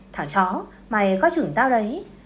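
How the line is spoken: Angry. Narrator (Vietnamese): Người đàn ông kia tức giận nói

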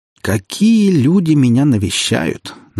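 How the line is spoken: Mocking greeting. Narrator (Russian): насмешливо поприветствовал он меня

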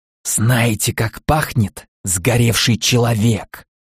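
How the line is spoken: Eerie whisper. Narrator (Russian): жутким голосом прошептал я

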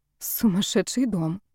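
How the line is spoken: Muttered. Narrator (Russian): пробормотала Ева

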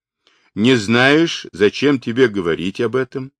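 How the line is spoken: Plain. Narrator (Russian): спросила Хуахчин

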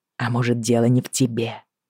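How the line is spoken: Stubborn whispering voice. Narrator (Russian): нашептывал ему упрямый голос

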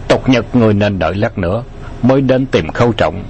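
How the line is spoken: Cold. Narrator (Vietnamese): Bạc Phong Hàn lạnh lùng nói

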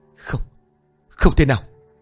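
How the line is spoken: Stunned muttering. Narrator (Vietnamese): Cũng không hét lên được, chỉ lẩm bẩm

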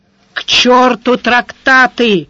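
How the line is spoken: Growling. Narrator (Russian): рычал сварог

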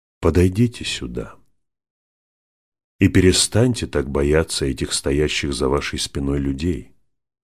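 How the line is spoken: Plain. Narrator (Russian): сказал лорд Бенедикт

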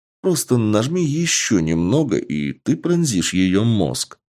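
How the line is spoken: Calm and gentle. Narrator (Russian): не давя на девушку, спокойно и нежно сказал босс

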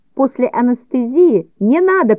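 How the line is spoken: Shouting in aversion. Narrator (Russian): крикнул я, поскольку не переношу крови и всего связанного с медициной

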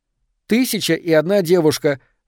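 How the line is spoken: Shouted. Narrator (Russian): выкрикнула она

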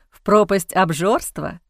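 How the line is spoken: Snorting. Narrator (Russian): хмыкнул Эхран

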